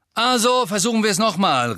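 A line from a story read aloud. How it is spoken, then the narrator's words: Calling out. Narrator (German): rief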